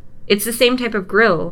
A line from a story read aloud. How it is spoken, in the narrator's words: Peter shouts